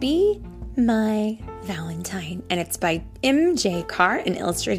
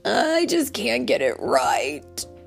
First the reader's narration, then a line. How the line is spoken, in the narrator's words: he wailed